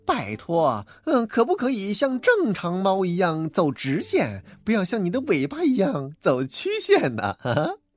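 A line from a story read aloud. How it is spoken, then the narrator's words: Teasing, mocking. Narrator (Chinese): 好朋友大奇笑话说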